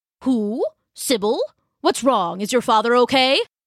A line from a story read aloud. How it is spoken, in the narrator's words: it came roaring out of her now